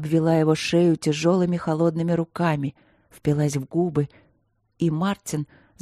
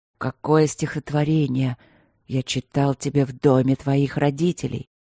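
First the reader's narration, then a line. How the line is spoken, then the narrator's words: Intimate whisper. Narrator (Russian): прошептал он ей в губы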